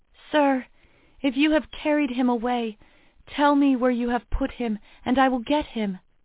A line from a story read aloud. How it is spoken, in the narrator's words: she pleaded